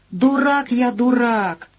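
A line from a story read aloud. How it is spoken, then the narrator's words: Exclaim. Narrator (Russian): воскликнул Ларик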